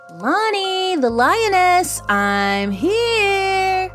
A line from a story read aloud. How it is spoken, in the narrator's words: shouted Blake, my best friend, blissfully unaware of the horror that I'd just witnessed